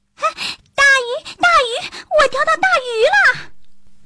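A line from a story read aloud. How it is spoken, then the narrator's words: Excited shouting. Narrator (Chinese): 他兴高采烈地大叫起来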